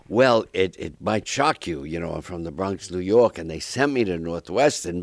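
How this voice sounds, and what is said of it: New York accent. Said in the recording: “you'll lose your accent at Northwestern. I didn't ... you got to lose your New York accent. Never worked out.”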